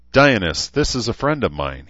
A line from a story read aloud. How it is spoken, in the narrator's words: he said